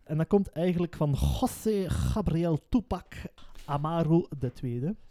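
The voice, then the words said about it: Put-on Spanish accent on name. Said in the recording (Dutch): “Dat is een zeer mooi Spaans accent.”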